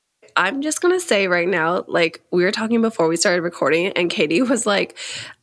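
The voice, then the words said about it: Raspy, congested voice from a cold. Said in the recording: “I am fully in the middle of my cold. You're going to hear like weird vocal changes and like congestion ... you just have a little bit of a raspy voice”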